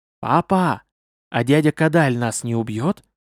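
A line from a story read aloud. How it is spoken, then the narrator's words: Quiet question. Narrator (Russian): тихонько спросила Сунджан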